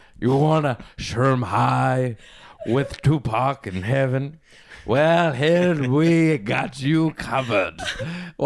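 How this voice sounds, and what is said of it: Put-on Transylvanian Dracula accent. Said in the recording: “Why am I talking with this accent? ... I guess you're from like Transylvania or something. ... I'm Dracula.”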